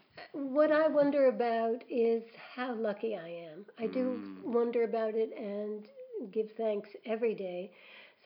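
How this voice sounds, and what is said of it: Emotional, choked-up voice. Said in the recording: “You're making me all emotional.”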